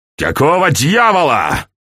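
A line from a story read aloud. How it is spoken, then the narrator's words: Bark from another room. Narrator (Russian): рявкнули из комнаты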